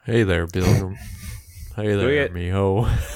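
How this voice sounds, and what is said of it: John Wayne impression. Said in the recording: “How do you do a John Wayne impression?”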